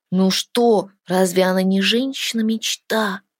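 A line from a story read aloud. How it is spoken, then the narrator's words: Drawled. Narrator (Russian): протянул Тин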